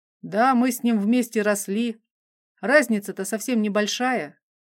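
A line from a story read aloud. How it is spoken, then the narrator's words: Pleased bass, mouth full. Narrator (Russian): пробасил довольно командир, уплетая ужин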